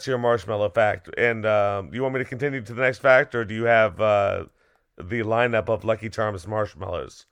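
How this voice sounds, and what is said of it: Unwell, strained voice. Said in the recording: “excuse my voice. I have not been well.”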